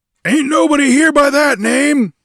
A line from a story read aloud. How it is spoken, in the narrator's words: he boomed